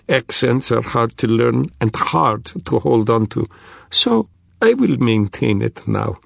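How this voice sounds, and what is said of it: Thick Russian accent. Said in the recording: “still in a thick Russian accent”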